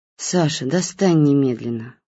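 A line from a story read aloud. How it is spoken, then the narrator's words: Tired voice. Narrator (Russian): усталым голосом сказал Гоша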